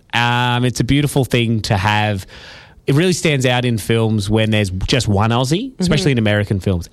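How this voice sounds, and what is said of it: Australian accent. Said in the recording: “I bloody love our accent. ... It's a great accent. ... what we sound like”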